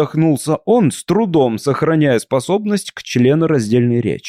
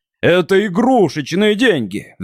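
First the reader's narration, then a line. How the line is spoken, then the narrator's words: Roaring. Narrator (Russian): взревел продавец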